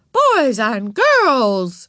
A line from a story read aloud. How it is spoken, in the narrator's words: Miss Robbins raised her voice